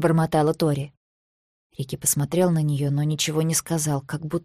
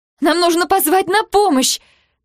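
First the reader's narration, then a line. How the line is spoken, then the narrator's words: Panicked scream. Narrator (Russian): закричала Тори, охваченная паникой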